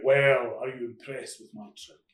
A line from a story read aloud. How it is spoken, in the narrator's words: the huge figure of the Devil dwarfed Ray, and he boomed out